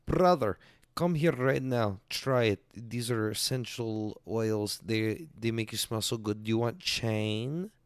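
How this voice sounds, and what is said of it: Put-on Asian accent. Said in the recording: “That's the best Asian accent I can do.”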